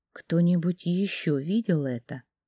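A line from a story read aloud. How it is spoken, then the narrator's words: Quiet fearful question. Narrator (Russian): тихо спросила я, опасаясь, что нас могут услышать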